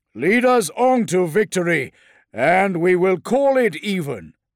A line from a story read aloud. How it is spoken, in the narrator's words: boomed the Dreadnought